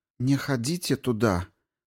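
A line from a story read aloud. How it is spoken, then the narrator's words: Hesitant, foreign language. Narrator (Russian): повторила она неуверенно на языке зидая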